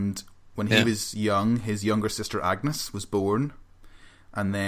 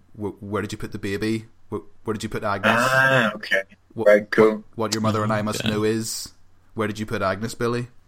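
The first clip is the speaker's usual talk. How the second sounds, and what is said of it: Imitates a parent character's voice. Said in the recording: “doing the impersonation of his parents”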